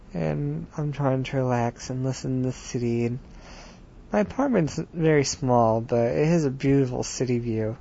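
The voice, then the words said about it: Sleepy monotone voice. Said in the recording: “I'm in my bed, so I'm probably making you fall asleep, especially with my monotone voice.”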